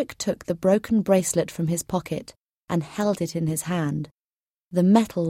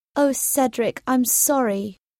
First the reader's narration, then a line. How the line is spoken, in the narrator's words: said Zelda